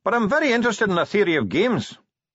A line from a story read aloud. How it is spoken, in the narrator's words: said the dwarf cheerfully